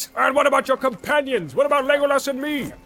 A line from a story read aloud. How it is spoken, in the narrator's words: cried Gimli, unable to contain himself longer